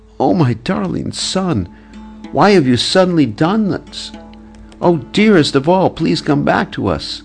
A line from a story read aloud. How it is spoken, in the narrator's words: Filled with panic and shock, Nanda Maharaj cried out in a voice choked with tears